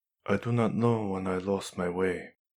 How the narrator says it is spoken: said quietly

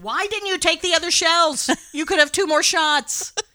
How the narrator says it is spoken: Danny screams at the television

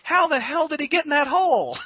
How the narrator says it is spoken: guys getting up from the seats, running back, yelling at the 15-year-old projectionist

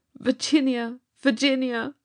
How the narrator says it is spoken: he called out in a hopeless tone

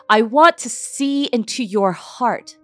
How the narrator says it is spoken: I yelled

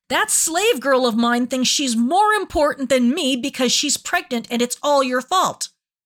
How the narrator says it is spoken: Sarai yelled

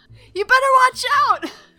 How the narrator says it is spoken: she's gonna scream

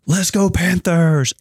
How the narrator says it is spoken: Wesley and Everly yelled

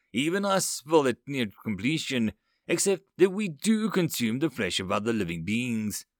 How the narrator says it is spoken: he chuckled

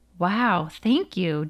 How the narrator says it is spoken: Jonah said

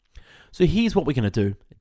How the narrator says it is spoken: Daddy-O said

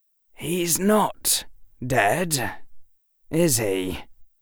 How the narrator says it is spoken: Harry sighed

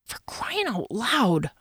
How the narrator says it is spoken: I muttered

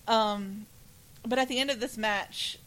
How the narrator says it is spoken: he called out

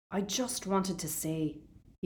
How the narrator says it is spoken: he mumbled

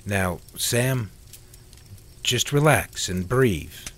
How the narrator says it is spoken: Neil said calmly

